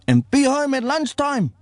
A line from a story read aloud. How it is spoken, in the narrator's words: she yells